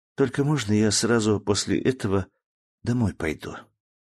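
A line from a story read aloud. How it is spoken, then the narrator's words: Whispered question. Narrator (Russian): шепотом спросила она меня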